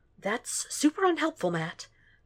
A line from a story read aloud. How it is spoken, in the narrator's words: Foggy hisses